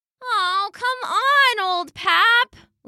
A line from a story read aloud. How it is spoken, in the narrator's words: Lulu whined